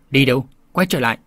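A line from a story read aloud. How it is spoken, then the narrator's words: Angry shout from above. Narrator (Vietnamese): có tiếng người giận dữ quát bảo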